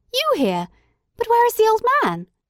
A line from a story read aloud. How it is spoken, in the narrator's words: I exclaimed